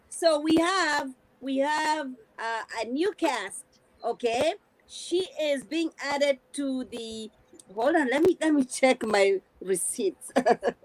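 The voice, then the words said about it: Heavy accent. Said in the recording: “with my heavy accent ... Your accent. ... We love your accent”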